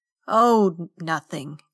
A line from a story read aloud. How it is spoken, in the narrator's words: he said and chuckled again